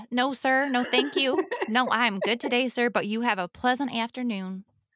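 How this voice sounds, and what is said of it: Poorly done Southern US accent. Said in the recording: “I murdered that accent”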